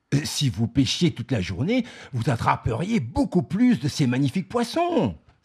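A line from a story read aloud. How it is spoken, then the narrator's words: Exclaiming. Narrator (French): s'exclame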